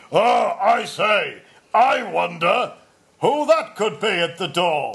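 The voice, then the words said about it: Exaggerated impression of his own voice. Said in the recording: “I'll do an impression of me ... That sounds nothing. Are you German? ... That's an impression. It's me doing an impression of myself.”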